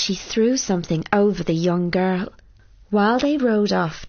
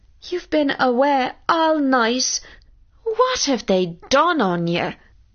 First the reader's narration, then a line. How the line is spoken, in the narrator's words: cried his mother